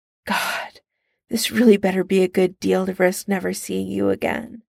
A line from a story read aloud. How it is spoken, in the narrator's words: Tony sighs